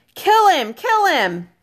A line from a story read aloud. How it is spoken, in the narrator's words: Robert was screaming and struggling with the strength of frenzy